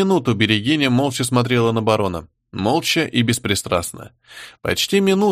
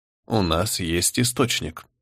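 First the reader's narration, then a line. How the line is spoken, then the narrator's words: Cold. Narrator (Russian): холодно произнесла всеведа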